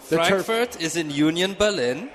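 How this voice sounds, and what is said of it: Put-on German accent. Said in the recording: “Nice German accent.”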